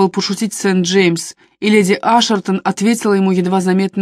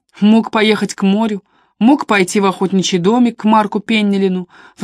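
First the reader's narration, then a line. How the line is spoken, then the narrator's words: Exhausted sigh. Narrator (Russian): вздохнула леди Ашертон, сразу обессилев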